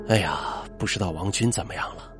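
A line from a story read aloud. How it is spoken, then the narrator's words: Sighing exclamation. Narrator (Chinese): 王成一下坐起来，感叹道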